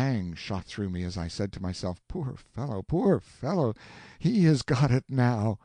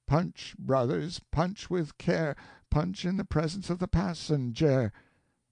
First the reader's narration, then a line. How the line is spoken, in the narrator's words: said, without animation, without apparent consciousness